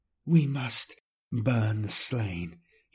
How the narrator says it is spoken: whispered, through silver tears

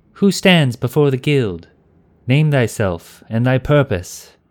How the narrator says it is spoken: a single voice called out

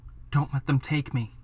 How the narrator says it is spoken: Yuna whispers into my ear

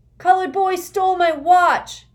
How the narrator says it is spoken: Aunt shouted

